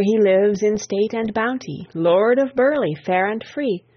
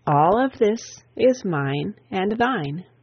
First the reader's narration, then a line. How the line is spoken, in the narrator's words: proudly kindly